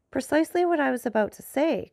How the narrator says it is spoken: cried Danglars

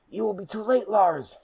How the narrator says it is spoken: shouted Lucas

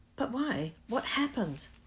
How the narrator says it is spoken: Harry asked urgently

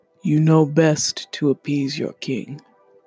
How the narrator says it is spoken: growled

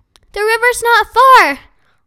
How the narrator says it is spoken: Holly shouted, coughing from the smoke

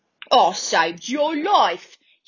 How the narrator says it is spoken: yelled angrily

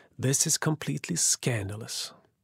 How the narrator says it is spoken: sighed and mumbled

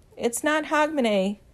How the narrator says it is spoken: Louis shouts after him

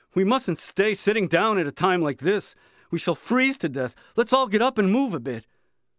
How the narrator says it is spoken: Someone got up and shouted

